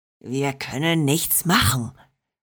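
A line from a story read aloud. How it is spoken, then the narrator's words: Snarl. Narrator (German): fauchte Bronco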